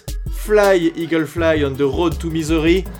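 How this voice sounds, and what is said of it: English with a French accent. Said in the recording (French): “avec un bel accent Frenchy”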